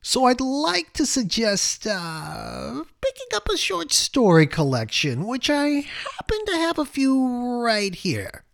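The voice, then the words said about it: Impersonation of a former teacher. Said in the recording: “my best Gene Weinstein impersonation. ... his delivery super amusing”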